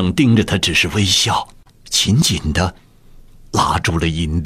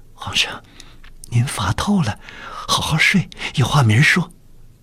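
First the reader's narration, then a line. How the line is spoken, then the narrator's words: Soft, muffled voice. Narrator (Chinese): 捂住了自己的嘴 轻声道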